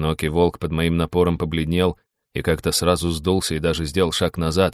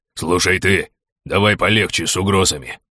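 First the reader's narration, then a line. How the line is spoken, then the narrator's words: Gruff growl. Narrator (Russian): рыкнул широкоплечий горд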